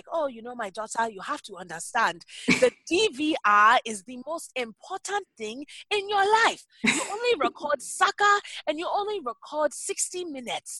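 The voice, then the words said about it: Imitated African parent's accent. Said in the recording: “my parents, like, I'll do their accent. ... I'm not making fun of all Africans everywhere. This is legit my dad.”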